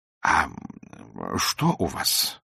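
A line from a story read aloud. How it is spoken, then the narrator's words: Quiet question. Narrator (Russian): спросил он тихо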